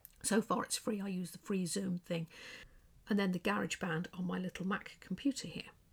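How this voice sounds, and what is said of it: Quiet English accent. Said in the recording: “with my quiet English accent, most people have a louder voice than me”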